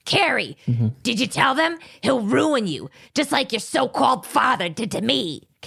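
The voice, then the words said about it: Gravelly New York voice, Cathy Moriarty. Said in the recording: “Kathy Moriarty's perfection of a gravelly voice ... That's such a good, impersonation. ... It's really just gravelly New York.”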